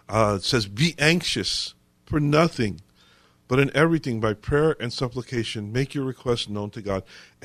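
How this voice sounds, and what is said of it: Voice affected by a cold. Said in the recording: “I'm fighting a cold, so excuse my voice.”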